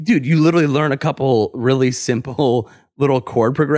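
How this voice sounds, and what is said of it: Usual voice. Nothing is said of it.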